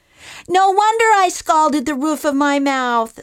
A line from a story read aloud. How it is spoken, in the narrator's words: squealed Baby Bear in his squeaky little irritating voice